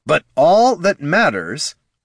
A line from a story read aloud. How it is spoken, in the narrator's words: Heraldon repeated loudly